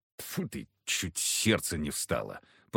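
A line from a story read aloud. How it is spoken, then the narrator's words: Grumbling. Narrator (Russian): проворчал Егор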